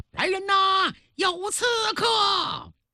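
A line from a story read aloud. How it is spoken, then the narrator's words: Loud shout. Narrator (Chinese): 高声喊道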